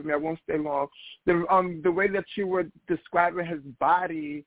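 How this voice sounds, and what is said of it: Hoarse, strained voice. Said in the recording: “I'm losing my voice,”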